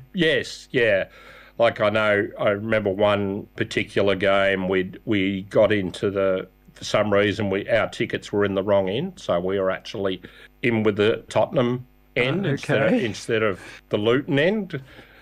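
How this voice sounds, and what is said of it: Australian accent. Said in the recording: “Because of my accent ... Being Australian helps.”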